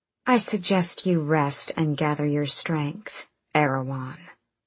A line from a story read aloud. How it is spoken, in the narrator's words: she purred